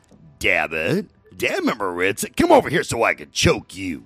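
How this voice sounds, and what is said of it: Imitates another person's voice. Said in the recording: “I can still do his voice”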